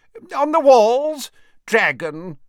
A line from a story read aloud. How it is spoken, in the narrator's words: shouted the wizard called Horace